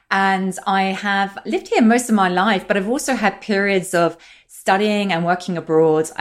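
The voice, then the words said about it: British accent. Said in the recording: “my accent is British”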